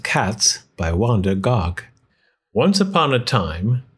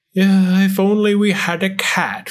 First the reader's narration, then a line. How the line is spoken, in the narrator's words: sighed the very old woman